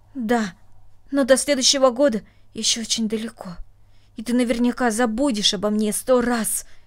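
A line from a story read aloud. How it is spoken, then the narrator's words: Angry reproach. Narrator (Russian): сердито сказала она, как будто упрекая своего друга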